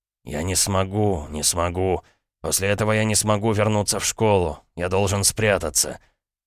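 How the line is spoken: Mumbling. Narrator (Russian): Он забормотал

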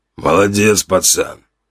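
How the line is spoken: Hoarse man's voice. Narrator (Russian): прохрипел мужчина

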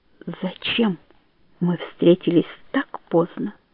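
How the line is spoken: Whisper. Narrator (Russian): прошептал

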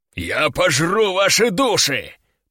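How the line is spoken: Deep demonic bass. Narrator (Russian): пробасил демон

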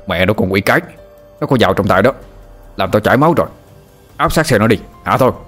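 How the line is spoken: Angry cursing shout. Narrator (Vietnamese): Tên kia quát mắt lên chửi thầy

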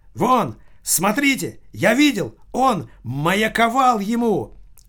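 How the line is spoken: Shouting. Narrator (Russian): кричал человек, стоявший в торце стола

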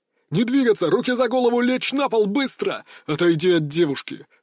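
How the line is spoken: Several voices thundering at once. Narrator (Russian): Прогремело в помещении разом несколько команд, противоречащих друг другу

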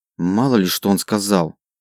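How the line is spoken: Displeased girl muttering. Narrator (Russian): недовольно пробурчала девушка

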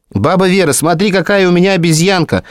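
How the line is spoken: Shouted, running in. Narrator (Russian): закричала, вбегая в кухню

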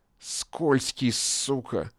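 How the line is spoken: Hiss. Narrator (Russian): шипел над ним

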